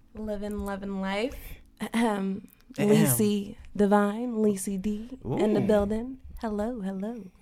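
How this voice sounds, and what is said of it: Sultry phone-sex-operator style voice. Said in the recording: “talking like a sex operator”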